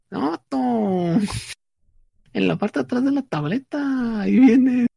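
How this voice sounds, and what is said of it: Put-on Monterrey northern Mexican accent. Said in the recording (Spanish): “me dice un cuate, que es de Monterrey. Entonces ya, ya imaginarán el acento”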